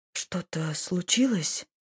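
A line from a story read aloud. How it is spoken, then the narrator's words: Quiet question. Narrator (Russian): спросила тихо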